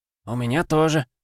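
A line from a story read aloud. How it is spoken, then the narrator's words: Grumbling mutter. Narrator (Russian): буркнул Олег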